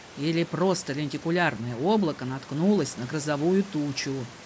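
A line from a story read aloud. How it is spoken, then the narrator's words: Muttered with a smile. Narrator (Russian): пробормотал монах с улыбкой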